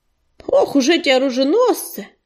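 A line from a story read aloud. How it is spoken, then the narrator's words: Grumbling. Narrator (Russian): проворчал Корявый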